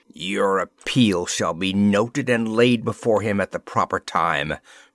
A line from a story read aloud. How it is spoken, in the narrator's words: replied the Viceroy savagely